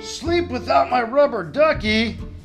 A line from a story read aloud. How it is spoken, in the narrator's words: yelled Ernie